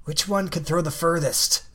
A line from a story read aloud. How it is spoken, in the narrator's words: he whispers it to me